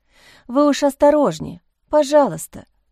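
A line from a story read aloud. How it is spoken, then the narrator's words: Sigh. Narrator (Russian): вздохнула Лиза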